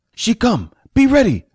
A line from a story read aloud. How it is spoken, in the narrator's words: Fat shouted